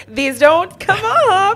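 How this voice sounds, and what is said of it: Weird Finnish-sounding put-on voice. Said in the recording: “That was a weird voice for yourself ... That was my Finnish side.”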